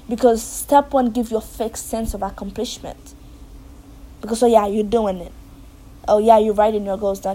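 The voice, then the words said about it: Very thick foreign accent. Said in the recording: “a very thick accent like I do”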